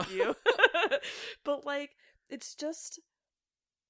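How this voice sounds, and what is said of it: Usual voice. Nothing is said of it.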